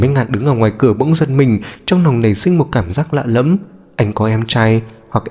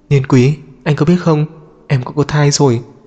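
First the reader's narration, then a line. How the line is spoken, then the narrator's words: Soft. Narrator (Vietnamese): mẹ khẽ nói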